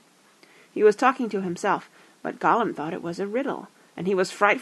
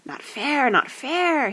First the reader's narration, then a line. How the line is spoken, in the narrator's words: he hissed